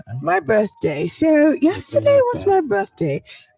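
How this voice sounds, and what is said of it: Put-on older British woman accent. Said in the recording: “But you sound older. ... You sound like an older British woman. ... At least like 55 or 60.”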